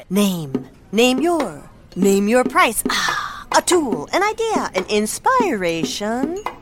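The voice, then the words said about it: Beat poet impression. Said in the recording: “my impression of a beat poet”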